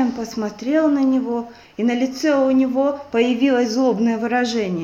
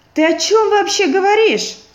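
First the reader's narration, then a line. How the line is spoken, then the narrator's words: Shouted. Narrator (Russian): закричал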